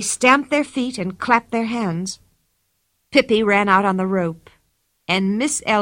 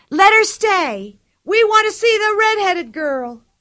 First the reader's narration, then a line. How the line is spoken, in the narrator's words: all the people shouted